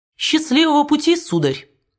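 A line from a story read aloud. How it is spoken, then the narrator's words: Cheerful. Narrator (Russian): весело сказав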